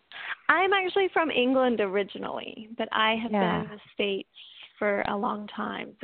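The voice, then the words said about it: Mixed English and Southern accent. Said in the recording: “my accent tends to go all over the place between English and Southern and anything in between ... it sounds like you have a little Brit in you”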